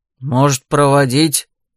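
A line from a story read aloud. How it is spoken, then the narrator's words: Man's deep bass blurt. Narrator (Russian): бухнул басом какой-то мужик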